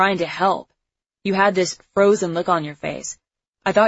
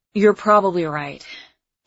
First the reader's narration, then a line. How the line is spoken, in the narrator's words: he said with a sigh